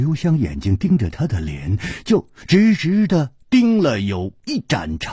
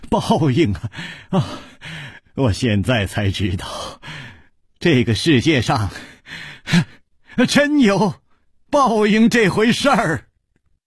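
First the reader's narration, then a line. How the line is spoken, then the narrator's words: Laughing loudly. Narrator (Chinese): 他趴在桌子上大笑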